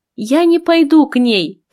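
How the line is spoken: Shouted. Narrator (Russian): крикнула Ада

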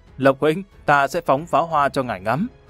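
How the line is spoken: Loud laughter. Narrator (Vietnamese): Lâm Văn Vinh cười lớn

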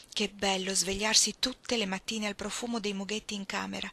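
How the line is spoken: Plain. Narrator (Italian): disse May

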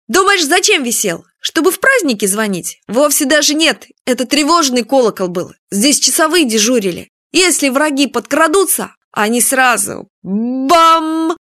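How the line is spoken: Loud repetition. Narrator (Russian): повторил громким голосом

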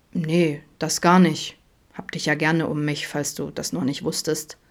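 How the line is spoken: Grumbling. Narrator (German): brummte er

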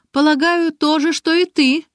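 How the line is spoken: Laughing. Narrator (Russian): засмеялась Маша

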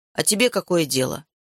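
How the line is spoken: Grumbled. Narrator (Russian): пробурчал

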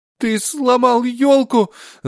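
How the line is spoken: Sobbing. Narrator (Russian): зарыдал

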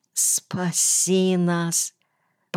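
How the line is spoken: Muffled moan. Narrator (Russian): простонала из-под мехового одеяла жена

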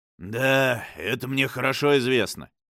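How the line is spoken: Gloomy. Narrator (Russian): мрачно проговорил Дайпенстрэм

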